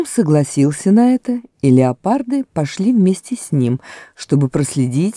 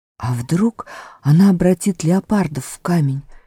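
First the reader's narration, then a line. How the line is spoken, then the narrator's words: Whispered. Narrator (Russian): шепнула Люси Питеру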